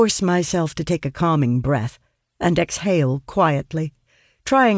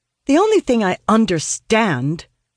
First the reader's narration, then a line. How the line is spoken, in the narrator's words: reply hotly